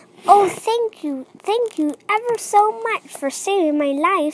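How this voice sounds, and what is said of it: Squeaky mouse voice. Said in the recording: “said the field mouse in a squeaky voice”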